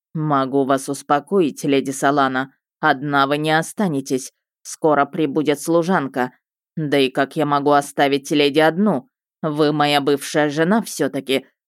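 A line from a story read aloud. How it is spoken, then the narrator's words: Arrogant man's smirk. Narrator (Russian): хмыкнул надменный тип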